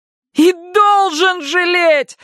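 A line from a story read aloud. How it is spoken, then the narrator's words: Shrill shriek, grieving mother. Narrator (Russian): взвизгнула мать двух мертвых дочерей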